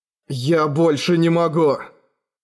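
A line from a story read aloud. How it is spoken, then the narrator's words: Desperate growl. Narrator (Russian): прорычал Эрагон, чувствуя уже не просто раздражение, а настоящее отчаяние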